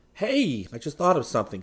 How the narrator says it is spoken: Seaton exclaimed

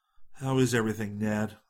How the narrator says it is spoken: inquired anxiously

